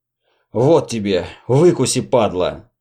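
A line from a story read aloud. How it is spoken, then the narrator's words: Hoarse rasp. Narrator (Russian): прохрипел доходяга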